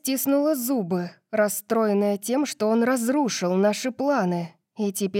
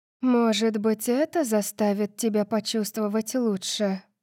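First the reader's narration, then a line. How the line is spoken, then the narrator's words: Purring. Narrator (Russian): промурлыкала Ашанти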